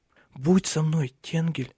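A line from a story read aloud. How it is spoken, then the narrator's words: Quick whisper. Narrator (Russian): прошептала она быстро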